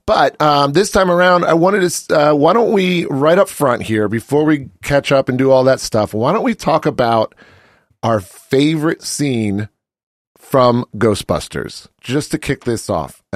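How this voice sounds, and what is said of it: Scratchy voice from a cold. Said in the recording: “I'm getting over a little bit of a cold. You can probably hear it in my voice. I lost my voice yesterday randomly. ... my voice is a little scratchy”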